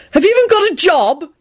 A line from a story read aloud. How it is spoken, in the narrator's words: He yelled out rudely to Ermine